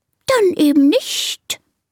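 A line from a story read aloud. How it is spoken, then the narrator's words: Offended hiss. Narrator (German): zischt die Schlange beleidigt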